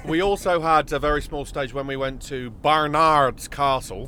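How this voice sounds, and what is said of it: Put-on regional accent. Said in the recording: “Nice accent. Well done.”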